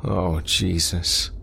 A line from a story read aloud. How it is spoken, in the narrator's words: Craig moaned